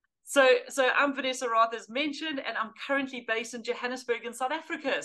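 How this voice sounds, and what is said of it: Mixed South African and British accent. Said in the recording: “some people might detect the accent there. It's not quite British. It's not Australia. ... the funny accent is a little bit of a mongrel of South African, UK mismatched together”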